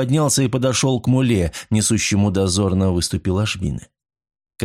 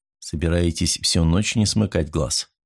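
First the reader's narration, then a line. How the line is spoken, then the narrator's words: Soft question. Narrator (Russian): мягко спросил он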